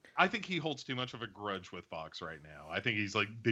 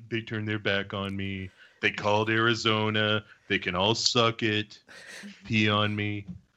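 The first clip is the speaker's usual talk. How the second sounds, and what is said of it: Imitates another person's voice. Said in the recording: “That's part of my new Trump impression.”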